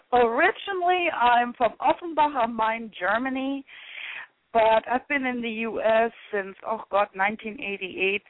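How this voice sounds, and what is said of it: German-accented English. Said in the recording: “You have the most beautiful accent. ... Oh, it's just such a beautiful accent. ... I love the sound of your voice.”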